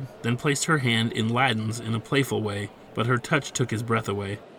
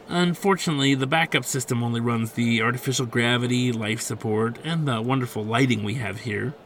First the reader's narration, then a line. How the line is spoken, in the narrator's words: she added ... with pretend awe